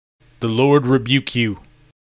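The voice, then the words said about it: Serene, calm delivery. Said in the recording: “in a serene voice.”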